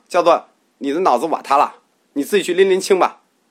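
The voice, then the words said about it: Shanghainese dialect. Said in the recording (Chinese): “用上海话”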